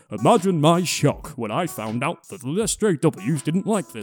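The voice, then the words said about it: Put-on Yorkshire English accent. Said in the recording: “He's from Yorkshire. ... So he talks like this.”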